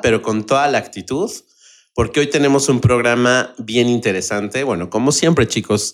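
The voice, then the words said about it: Hoarse, sick-sounding voice. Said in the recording (Spanish): “Enfermo ... me van a oír un poquito raro ... Suenas un poco como fresa ... con la papa en la boca ... Estoy un poquito ronco ... sufriendo un poquito con la garganta”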